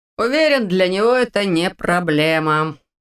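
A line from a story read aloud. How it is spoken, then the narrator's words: Man grumbling. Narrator (Russian): проворчал второй мужчина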